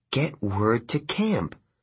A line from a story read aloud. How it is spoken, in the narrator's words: I muttered